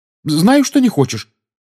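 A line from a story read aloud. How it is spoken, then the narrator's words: Quick, frightened. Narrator (Russian): быстро и испуганно сказала Гермиона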